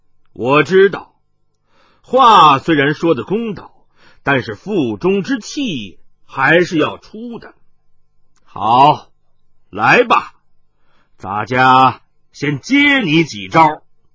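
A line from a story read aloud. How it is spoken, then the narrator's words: Hearty laughter then speech. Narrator (Chinese): 哈哈哈哈，他仰天大笑了数声，接着说道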